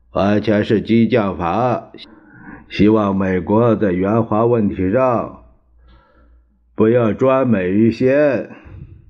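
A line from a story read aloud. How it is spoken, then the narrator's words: Faint amused smile. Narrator (Chinese): 蒋介石淡淡一笑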